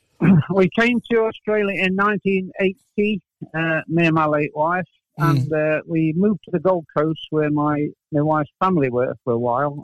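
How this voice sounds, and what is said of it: English accent. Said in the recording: “obviously your accent, you're English”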